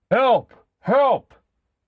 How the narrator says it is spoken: Bruno heard the men shouting

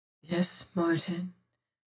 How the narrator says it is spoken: says she softly

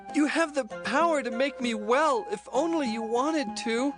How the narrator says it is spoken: He begged

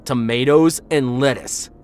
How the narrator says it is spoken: shouted

